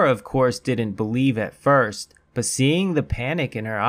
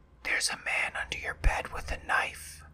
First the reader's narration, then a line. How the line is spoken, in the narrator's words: Rose whispers in a panic with tears in her eyes